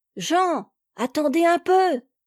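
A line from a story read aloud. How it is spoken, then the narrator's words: Joyful little girl shouting. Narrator (French): cria une joyeuse voix de petite fille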